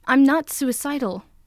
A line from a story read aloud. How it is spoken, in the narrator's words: Izuku snaps, bristling at the direction this has turned